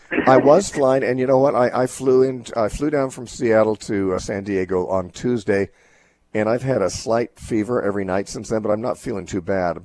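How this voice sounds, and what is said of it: Throaty, congested voice from cold. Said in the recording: “You sound good. A little throaty today. ... I have a cold right now, and you can tell that. ... I definitely have stuff in my chest and my throat, so I don't sound like myself.”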